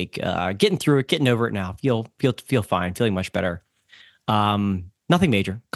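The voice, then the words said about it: Voice sounds like he has a cold. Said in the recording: “in case you can hear it in my voice, I was feeling a little bit under the weather ... Common cold”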